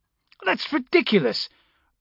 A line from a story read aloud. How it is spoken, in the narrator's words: Brocklaw snapped